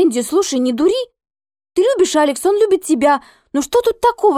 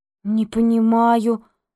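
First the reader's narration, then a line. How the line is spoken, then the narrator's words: Thoughtful mumble. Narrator (Russian): пробормотала она задумчиво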